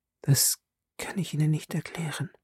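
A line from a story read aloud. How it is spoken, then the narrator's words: Widow whispering. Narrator (German): wisperte die Witwe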